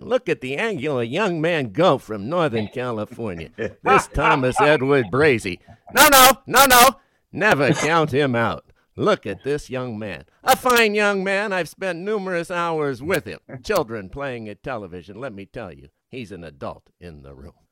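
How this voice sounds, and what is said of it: Howard Cosell impression. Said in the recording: “I always love the way Howard Cosell called games and made it exciting for you to watch it over and over again, just hearing his voice... your impression... Give us your Howard.”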